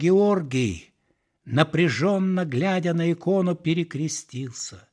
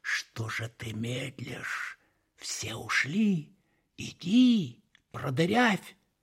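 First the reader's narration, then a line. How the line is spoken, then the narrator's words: Hissing snake-like whisper. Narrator (Russian): змеиный шепот прозвучал в его голове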